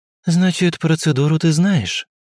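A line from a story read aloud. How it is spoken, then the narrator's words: Sighing. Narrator (Russian): вздохнув, произнесла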